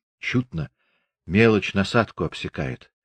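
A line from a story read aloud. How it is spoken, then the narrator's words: Sigh. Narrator (Russian): вздохнул Григорий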